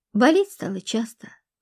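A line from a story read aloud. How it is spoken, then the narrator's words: Sigh. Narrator (Russian): вздохнула Любаша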